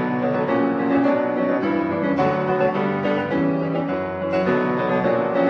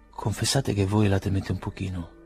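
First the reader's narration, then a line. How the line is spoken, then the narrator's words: Quiet undertone. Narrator (Italian): disse sottovoce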